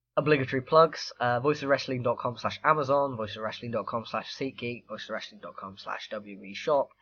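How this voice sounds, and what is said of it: Hoarse, failing voice. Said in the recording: “as listeners can probably hear, I am losing my voice rapidly”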